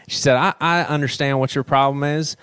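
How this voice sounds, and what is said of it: Imitates a Southern country accent. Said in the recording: “I'm from the South, so I can crash right. on country accents.”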